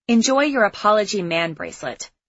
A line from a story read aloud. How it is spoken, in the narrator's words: I snapped